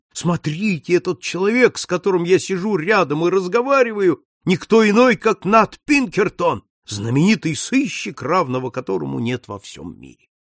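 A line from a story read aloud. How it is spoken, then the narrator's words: Proud shout. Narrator (Russian): Ему страшно хотелось с гордостью крикнуть всем встречным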